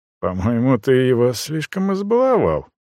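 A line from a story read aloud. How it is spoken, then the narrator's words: Quiet undertone. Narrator (Russian): вполголоса произнес наблюдающий за нами Костян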